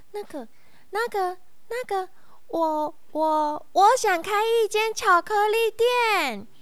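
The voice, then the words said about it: Nervous stammering, then shouting. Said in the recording (Chinese): “本来很小声、很小声、很小声说话的红松鼠就很紧张的跟大哥哥说 ... 红松鼠大声的喊出来了”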